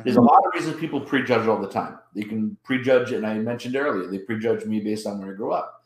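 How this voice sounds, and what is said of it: East Coast American accent. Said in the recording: “they hear the East Coast accent”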